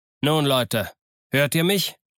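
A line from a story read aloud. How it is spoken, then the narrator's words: Called out. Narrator (German): rief er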